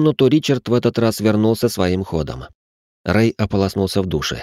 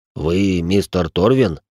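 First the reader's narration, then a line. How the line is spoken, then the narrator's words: Gruff mutter. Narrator (Russian): буркнул Рэй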